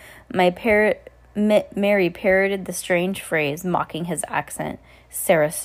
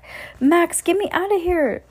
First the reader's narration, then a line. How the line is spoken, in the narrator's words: Danny said desperately